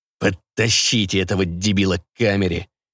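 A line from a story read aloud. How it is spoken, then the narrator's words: Reluctant deep bass. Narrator (Russian): с неохотой пробасил генерал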